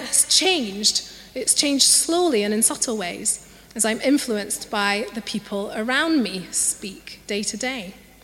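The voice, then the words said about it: Mild Scottish accent. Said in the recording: “I grew up in Scotland, and so I have a Scottish accent, although it's not as strong as it once was because I've lived in London for such a long time”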